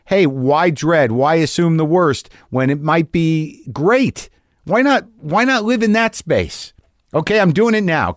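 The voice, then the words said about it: Excited, upbeat voice. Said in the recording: “Can you hear the excitement in my voice?”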